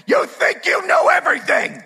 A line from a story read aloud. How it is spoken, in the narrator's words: Lasseter flipped out and screamed at him